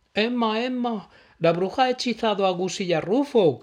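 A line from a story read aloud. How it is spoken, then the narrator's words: Shouting in unison. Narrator (Spanish): gritaron a la vez Noli y Pipo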